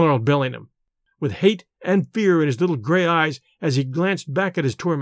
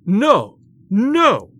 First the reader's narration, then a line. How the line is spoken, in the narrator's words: shouted Bellingham